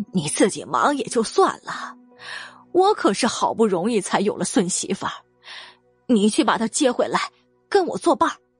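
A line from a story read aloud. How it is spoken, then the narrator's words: Old woman, suppressed laughter, cough. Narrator (Chinese): 老太太强忍着心头的笑意，咳嗽了一声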